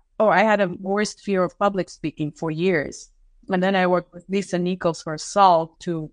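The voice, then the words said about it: Russian accent. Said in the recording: “I'm in Russian, having an accent”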